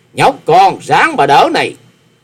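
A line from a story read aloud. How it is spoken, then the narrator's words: Scornful loud shout. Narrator (Vietnamese): Điền Cương Dạ Xoa hừ mũi một tiếng, quát to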